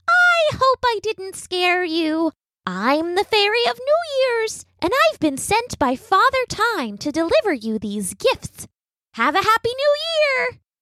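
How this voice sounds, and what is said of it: Pleasant little fairy voice. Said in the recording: “said the fairy in a pleasant little voice.”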